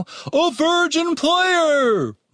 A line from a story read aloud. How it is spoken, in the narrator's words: Mordred exclaimed